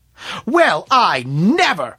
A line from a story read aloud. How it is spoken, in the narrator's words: shouted April